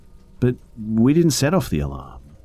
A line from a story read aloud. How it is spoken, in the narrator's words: said, stammering, started to cry